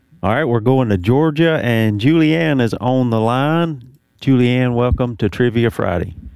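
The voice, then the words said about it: Southern American accent. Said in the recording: “Not only do I sound Southern, I read Southern, too.”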